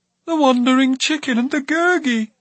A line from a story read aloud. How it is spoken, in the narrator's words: she cried